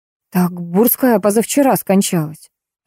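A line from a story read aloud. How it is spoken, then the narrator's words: Confused reply. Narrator (Russian): растерянно ответила я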